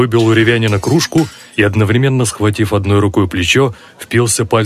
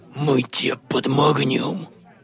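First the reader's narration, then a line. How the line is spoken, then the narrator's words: Hissing. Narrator (Russian): прошипел Дылда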